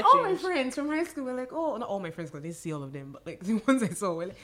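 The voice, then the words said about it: Nigerian accent. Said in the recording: “this accent has not left my mouth. I'm still talking as Nigerian as I can say it”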